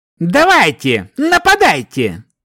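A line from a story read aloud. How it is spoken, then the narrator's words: Sudden snarling shout. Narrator (Russian): Внезапно выкрикнув, оскалился лучник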